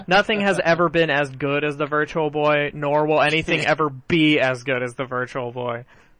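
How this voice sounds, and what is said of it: Sarcastic tone. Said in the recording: “I'm being sarcastic,”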